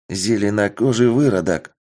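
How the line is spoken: Warriors murmuring quietly. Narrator (Russian): Начали негромко переговариваться воины

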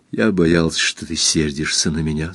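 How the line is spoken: Plain. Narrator (Russian): сказал Эрленд

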